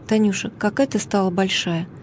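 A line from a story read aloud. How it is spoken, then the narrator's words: Gentle, fatherly. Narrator (Russian): отец ласково сказал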